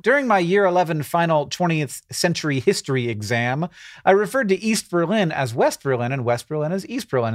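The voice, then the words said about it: Put-on Australian accent. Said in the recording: “Said with an Australian accent”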